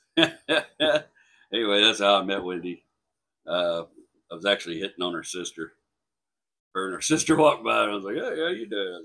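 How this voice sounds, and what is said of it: Speaks with a noticeable accent. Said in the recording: “a lot of them just liked my accent”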